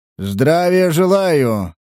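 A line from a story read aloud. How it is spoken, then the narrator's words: Captain's booming bass. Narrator (Russian): прогудел капитан зычным басом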